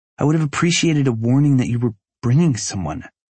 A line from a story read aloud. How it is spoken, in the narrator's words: she says tightly